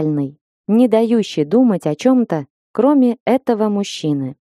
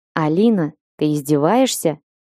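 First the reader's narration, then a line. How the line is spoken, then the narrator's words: Gloomy question. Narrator (Russian): мрачно спросил Лешек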